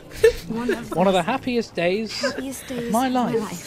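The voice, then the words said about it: Bad put-on British accent. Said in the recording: “What accent ... Was that? ... as a British person, I did a worse British accent than the American.”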